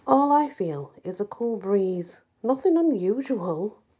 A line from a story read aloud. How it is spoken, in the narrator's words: laughed Seamus